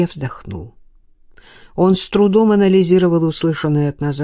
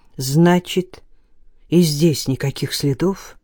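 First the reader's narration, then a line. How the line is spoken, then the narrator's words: Plain question. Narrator (Russian): спросил Илья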